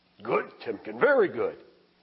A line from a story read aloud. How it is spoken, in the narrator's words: he exclaimed